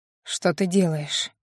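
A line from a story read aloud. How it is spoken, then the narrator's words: Hoarse. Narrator (Russian): Хриплый голос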